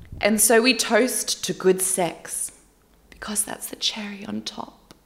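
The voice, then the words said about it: Put-on British accent. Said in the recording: “I don't know why she's British all of a sudden. Why is my go-to accent always British?”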